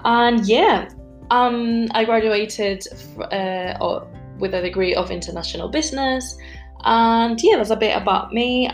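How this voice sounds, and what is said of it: Slight foreign accent. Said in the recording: “I have a bit of an accent”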